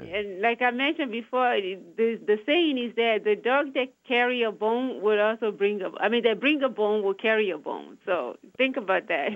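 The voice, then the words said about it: Charming Nigerian accent. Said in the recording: “you have a charming accent ... Nigeria. I came from Nigeria.”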